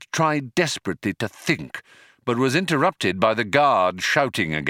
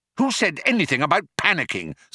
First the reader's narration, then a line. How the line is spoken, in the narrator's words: snapped Arthur